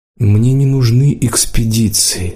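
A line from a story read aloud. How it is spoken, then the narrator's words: Flat muffled voice. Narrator (Russian): сказала Лидка глухо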